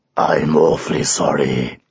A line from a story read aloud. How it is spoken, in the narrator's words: said a deep, rumbly voice